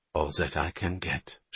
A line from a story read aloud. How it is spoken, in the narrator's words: she muttered